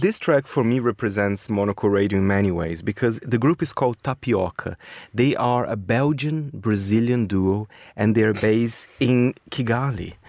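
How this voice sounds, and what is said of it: Brazilian-accented English. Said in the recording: “That's my Brazilian accent for you.”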